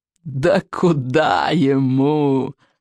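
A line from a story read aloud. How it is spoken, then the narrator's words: Loud laughter. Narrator (Russian): расхохотался Сморкало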